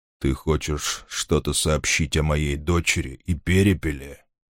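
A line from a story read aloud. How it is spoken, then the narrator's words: Gasping yet menacing. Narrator (Russian): Змееглав задыхался через каждое слово, но речь его от этого звучала не менее грозно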